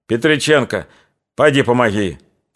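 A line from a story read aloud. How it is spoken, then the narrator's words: Sharp falsetto shout. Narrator (Russian): крикнул резким фальцетом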